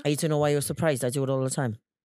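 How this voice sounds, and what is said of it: Put-on Welsh accent. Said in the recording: “great at the Welsh accent ... Actually, that's not bad, you know ... It's really good.”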